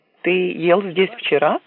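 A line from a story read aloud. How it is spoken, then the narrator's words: Plain. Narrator (Russian): спросила Синди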